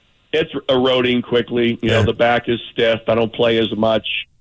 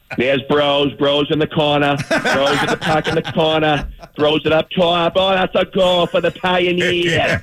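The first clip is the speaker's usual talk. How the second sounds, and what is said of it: Put-on Boston accent. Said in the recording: “doing the play-by-play with the Boston accent.”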